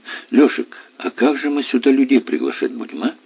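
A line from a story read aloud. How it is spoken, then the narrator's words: Sad question. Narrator (Russian): Грустно спросила Настя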